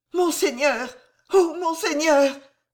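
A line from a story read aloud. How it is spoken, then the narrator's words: Stammered. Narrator (French): bégaya enfin Jeanne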